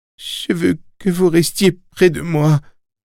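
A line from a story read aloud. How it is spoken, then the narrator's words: Moaned. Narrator (French): gémit Billy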